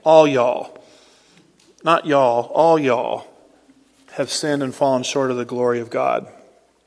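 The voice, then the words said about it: Put-on Texan drawl. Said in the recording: “If we can speak a little Texan here.”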